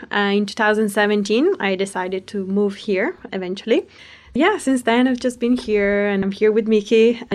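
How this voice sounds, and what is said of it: Accent with slight British influence. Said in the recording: “there's somewhere in your accent, there's a little bit of British influence that I can tell”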